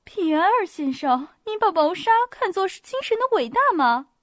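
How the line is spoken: Slightly smiling. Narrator (Chinese): 矮小的公爵夫人说道，她一面微微发笑

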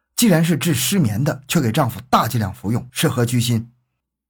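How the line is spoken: Sharp, stern rebuke. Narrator (Chinese): 黄队长厉声呵斥道

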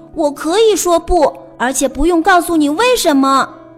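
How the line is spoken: Roaring. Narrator (Chinese): 安迪吼道

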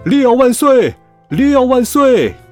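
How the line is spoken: Crowd cheering fervently. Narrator (Chinese): 如此热烈的欢呼声，大家都在喊

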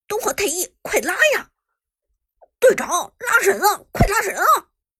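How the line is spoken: Angry shout. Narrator (Chinese): 还是露娜……愤怒喊道

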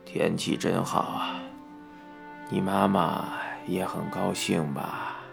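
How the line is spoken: Murmuring. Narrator (Chinese): 爸爸喃喃地说

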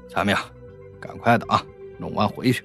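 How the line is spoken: Cursing. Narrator (Chinese): 那另一个声音骂道

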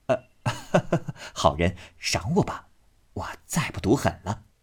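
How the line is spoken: Ingratiating, pleading. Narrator (Chinese): 贾琏 忙陪笑央求道

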